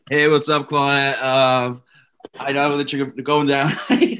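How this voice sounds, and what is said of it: Put-on straight guy voice. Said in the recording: “your straight voice”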